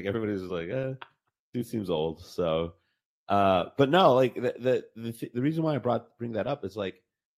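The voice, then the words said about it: Congested, stuffy voice. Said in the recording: “I'm under the weather. That's why my, my, my voice is so congested.”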